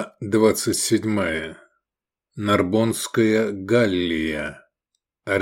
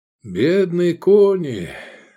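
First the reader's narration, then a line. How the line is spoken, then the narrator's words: Sighed. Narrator (Russian): вздохнул Искандер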